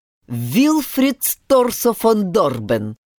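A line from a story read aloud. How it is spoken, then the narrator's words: Grandfather's booming, clipped voice. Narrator (Russian): громогласно отчеканил дед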